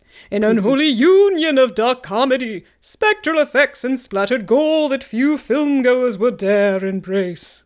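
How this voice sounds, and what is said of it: Spooky Halloween-style voice. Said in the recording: “I'm going to read it in my scary Halloween voice.”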